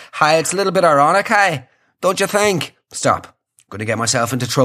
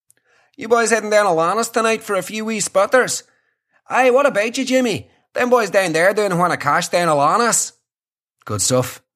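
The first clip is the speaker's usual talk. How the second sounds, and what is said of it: Bad put-on Derry accent. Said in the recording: “doing a bad Derry accent”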